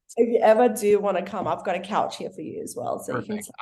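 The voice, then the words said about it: Strong Australian accent. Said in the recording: “Your guys' accent is so strong ... an Australian accent”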